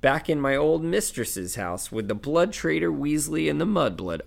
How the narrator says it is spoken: croaked Creature in his bullfrog's voice

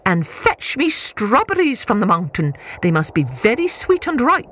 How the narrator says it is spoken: shouted

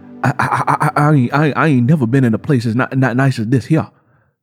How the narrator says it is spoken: Curly stammered

